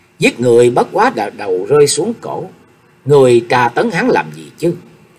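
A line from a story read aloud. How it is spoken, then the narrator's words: Angry scolding. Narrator (Vietnamese): Chu Cao Hú giận dữ định hả miệng mắng chửi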